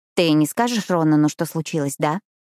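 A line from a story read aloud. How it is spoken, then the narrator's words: Snorting. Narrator (Russian): Альберт хмыкнул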